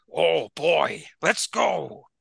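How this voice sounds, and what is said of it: Imitates another person's voice. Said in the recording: “You make him seem like Vince McMahon when you're doing an impression ... I sound like Al Pacino playing Vince McMahon”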